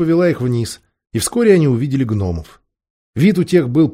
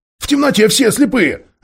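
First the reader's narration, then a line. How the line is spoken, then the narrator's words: Snapping retort. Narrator (Russian): огрызнулся Дигл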